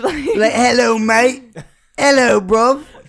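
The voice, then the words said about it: Put-on English accent. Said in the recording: “1975 is British ... They're really English ... if y'all don't think I do a good accent”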